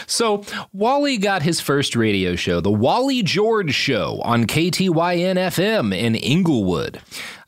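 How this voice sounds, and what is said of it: Announcer-style radio voice. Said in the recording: “I was trying to do my radio voice for that one.”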